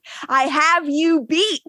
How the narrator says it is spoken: Klaus yells

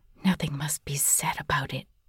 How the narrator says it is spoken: whispered

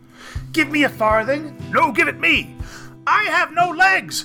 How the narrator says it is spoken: yelled, who had legs

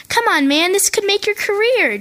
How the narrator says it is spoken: Gino pleaded

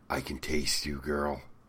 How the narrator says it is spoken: He whispers in her ear

